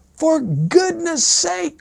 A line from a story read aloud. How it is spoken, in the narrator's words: cried the young lady in exasperation